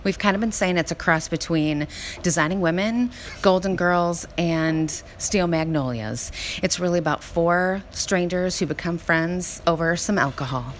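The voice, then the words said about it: Southern US accent, Savannah. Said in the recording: “I couldn't help but notice our accents ... all of us kind of have different variations of a Southern accent. I am from Savannah, and so I have more of a Julius Sugarbaker kind of a sound.”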